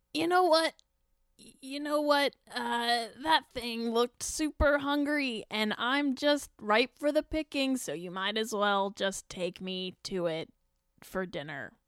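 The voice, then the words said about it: Role-play character voice. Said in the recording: “I know I'm not very consistent with my character voice, but I try my best.”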